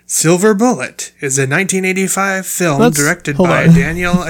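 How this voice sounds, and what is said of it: Irritated-sounding announcer voice. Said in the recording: “You sound so irritated. ... I was trying to do an announcer voice. And I didn't mean to sound pissed off.”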